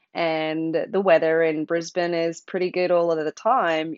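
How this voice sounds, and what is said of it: Australian accent. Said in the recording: “You probably can hear from my voice. I grew up in Australia.”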